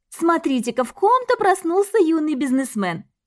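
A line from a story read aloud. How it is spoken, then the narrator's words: Cheerful, laughing. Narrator (Russian): весело проговорила Диана и рассмеялась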